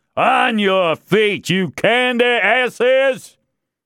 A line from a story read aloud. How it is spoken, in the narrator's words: Leverett then screamed, or shouted, or bellowed